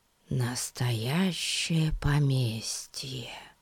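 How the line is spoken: Whisper. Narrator (Russian): прошептал Пип

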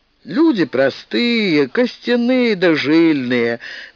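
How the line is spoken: Mocking reply. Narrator (Russian): насмешливо ответил рыжий мужчина

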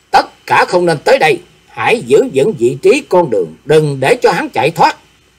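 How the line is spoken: Commanding shout. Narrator (Vietnamese): Diệp Linh Tô quát lên

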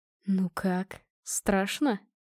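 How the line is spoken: Ominous whisper. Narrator (Russian): зловещим шепотом спросил муж

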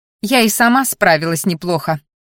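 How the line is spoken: Scoffing snort, young woman. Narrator (Russian): фыркнула девушка

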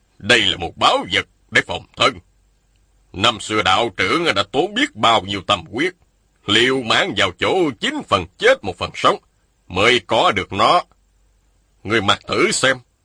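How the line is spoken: Stern. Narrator (Vietnamese): Một nhân thanh nghiêm giọng nói

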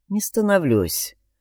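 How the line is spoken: Weary head-shake. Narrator (Russian): устало качнул головой Алекс

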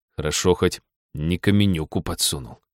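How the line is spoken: Grumbled. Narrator (Russian): буркнул он

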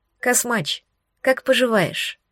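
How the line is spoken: Quiet question. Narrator (Russian): спросила тихо

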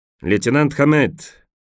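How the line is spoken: Shouted, said by a colonel. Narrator (Russian): крикнул полковник

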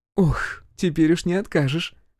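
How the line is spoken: Short laugh. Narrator (Russian): хохотнула

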